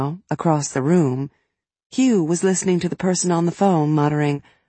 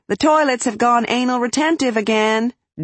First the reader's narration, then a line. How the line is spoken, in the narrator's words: Dee would shout